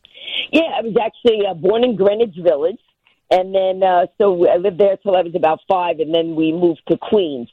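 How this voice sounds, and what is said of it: New York accent. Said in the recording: “you could tell from my accent, right? Texas? No, New York. I'm New Yorker.”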